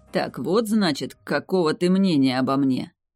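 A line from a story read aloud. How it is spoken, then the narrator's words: Dragon's hiss through teeth. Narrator (Russian): процедил дракон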